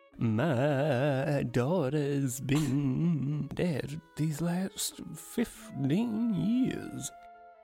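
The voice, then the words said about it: Exaggerated trembling voice. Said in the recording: “Her voice is trembling. It's been trembling earlier on too. And now you've told me to fucking tremble, so there's going to be an earthquake of a sentence.”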